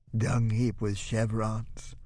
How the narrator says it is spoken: Lisa giggles huskily

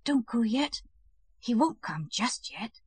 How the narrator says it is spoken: Silently he pressed close to her and whispered

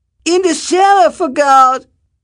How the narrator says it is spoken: old Het shouted, also without pausing

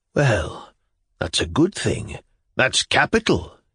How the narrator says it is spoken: he muttered in his bed

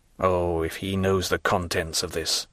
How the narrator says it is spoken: murmured he

